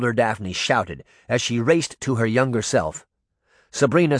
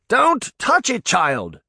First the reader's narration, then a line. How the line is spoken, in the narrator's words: Tom shouted